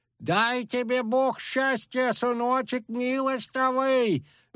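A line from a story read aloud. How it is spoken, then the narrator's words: Wailing old woman. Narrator (Russian): взвыла бабка Микитка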